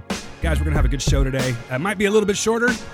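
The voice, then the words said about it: Strained voice, starting to give out. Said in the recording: “my voice is starting to leave me a little bit here.”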